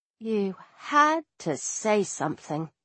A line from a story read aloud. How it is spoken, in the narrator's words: I told Bast weakly